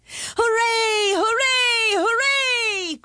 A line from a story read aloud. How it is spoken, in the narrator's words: cried all the people